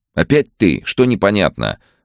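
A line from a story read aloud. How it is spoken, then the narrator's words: Sharp question. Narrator (Russian): возможно, даже слишком резко спросил Максим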